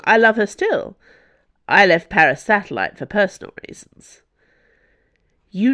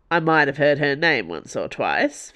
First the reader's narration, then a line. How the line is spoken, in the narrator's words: Felton said dryly